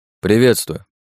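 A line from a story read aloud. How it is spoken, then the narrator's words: Dry reply. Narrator (Russian): сухо ответил я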